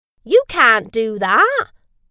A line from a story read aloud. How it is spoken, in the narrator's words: shouted the farmer